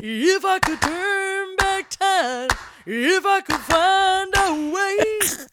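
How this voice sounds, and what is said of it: Sung impression of a singer. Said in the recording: “my impeccable Cher impersonation ... I'm a little rusty”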